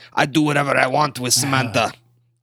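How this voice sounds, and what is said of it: Poor put-on Austrian accent. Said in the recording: “my Austrian impression. It was pretty terrible”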